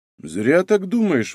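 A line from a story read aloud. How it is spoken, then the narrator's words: Objecting father. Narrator (Russian): возразил отец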